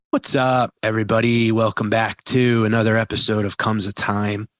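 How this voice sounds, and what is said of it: Husky voice from illness. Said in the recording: “I got my sexy voice on, my COVID sexy voice ... when he was sick in the studio, it made his voice sound sexier”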